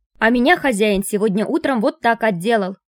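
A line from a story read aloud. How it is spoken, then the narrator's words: House spirits shouting. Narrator (Russian): кричали домовые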